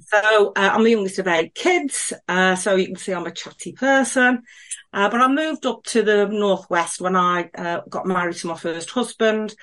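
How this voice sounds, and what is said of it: Black Country English accent. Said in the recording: “as you can probably tell from my accent, I hail from the Black Country.”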